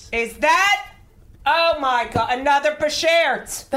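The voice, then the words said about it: Loud excited yelling. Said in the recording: “stop yelling”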